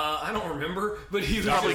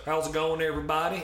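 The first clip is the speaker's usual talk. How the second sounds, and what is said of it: Deep Southern accent. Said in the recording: “super deep ... Southern accent ... really Southern”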